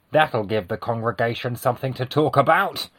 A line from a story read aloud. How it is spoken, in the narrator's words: I muttered